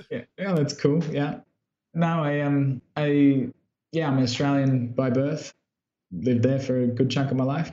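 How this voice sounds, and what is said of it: Australian accent. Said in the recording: “my accent, I'm from Brisbane, Australia”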